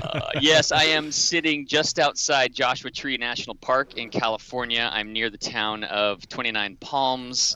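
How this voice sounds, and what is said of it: Loud, animated radio voice. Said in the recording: “talking loudly and animated because I'm using my radio voice”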